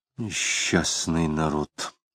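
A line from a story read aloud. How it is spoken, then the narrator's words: Muttering. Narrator (Russian): пробормотал Самгин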